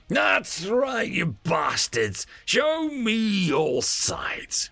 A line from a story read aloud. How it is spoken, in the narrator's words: Dremsel snarled